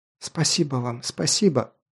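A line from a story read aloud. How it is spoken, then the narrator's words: Grateful mumbling. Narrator (Russian): бормотала Дарая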